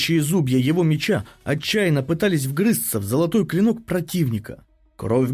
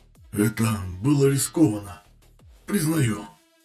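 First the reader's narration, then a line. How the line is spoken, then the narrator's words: Hoarse wheeze. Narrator (Russian): прохрипел Далкар в ответ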